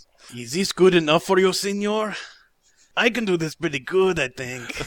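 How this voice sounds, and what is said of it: Exaggerated put-on Mexican accent. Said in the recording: “terrible Mexican accent”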